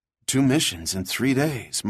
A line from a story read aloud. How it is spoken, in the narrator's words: Mark breathed